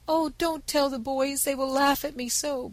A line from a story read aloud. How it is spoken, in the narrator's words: begged the invalid